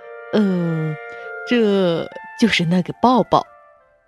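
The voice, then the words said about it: Shy, quiet voice. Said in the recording (Chinese): “红着脸，小声的说”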